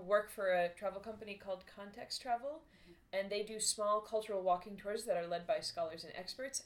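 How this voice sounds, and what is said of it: American English accent. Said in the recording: “Those listening will have detected your accent. ... I am American. ... I do not have a Boston accent.”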